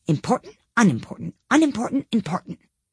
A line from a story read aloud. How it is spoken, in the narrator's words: the king hastily said